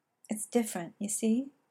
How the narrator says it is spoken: Arthur moaned softly

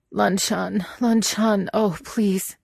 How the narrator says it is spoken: he whimpered

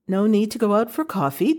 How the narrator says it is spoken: Jeannie said brightly

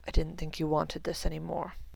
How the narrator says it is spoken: murmured Severus

